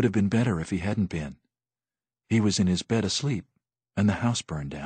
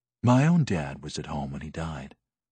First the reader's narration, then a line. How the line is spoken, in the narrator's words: Mark said softly